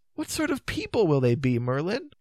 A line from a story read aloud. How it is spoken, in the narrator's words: cried the young man's voice unhappily